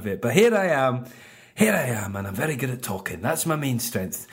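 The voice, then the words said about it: Put-on Scottish accent, imperfect. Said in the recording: “don't pick me up on the accent. I don't give a fuck if that accent was out ... if fucking Liam Neeson could do one in Rob Roy”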